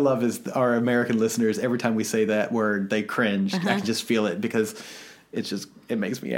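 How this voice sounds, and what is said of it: Usual voice. Nothing is said of it.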